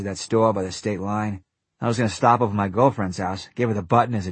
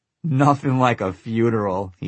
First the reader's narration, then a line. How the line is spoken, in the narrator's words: he said and laughed